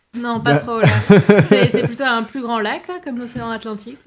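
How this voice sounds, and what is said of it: French accent from France. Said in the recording (French): “J'ai cru comprendre à ton accent que tu viens pas du lac Saint-Jean.”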